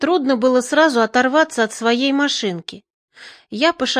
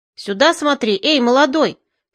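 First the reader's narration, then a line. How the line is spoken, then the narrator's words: Angry shout. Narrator (Russian): сердито прикрикнул Науменко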